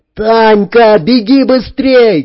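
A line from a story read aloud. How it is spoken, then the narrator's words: Shouting. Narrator (Russian): крикнул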